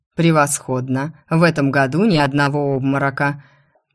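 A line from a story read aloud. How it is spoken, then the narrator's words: Deep chesty bass rumble. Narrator (Russian): Глубоким грудным басом пророкотал оборотень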